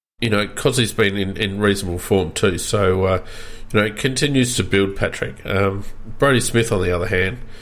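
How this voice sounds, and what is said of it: Hoarse, strained voice. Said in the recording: “I'm starting to lose my voice here”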